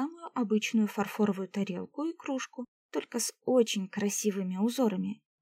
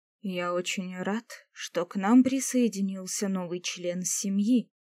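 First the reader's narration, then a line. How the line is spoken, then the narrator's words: Solemn. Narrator (Russian): торжественно произнес эльф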